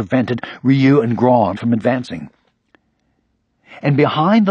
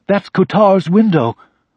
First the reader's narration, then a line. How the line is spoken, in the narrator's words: Grawn suddenly exclaimed